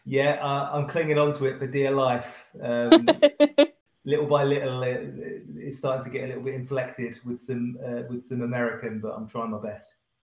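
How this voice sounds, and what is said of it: British accent. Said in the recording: “enjoy your accent ... my fellow Brits”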